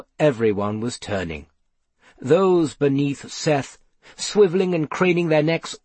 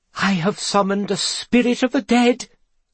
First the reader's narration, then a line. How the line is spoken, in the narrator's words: cried Gloria